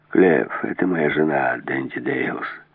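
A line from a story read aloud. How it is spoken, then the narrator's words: Soft and calm. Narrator (Russian): сказал мягко и спокойно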